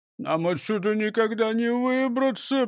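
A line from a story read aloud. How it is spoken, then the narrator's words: Moaning. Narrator (Russian): простонал Крендель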